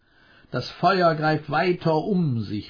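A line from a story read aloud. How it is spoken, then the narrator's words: Called out. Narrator (German): rief man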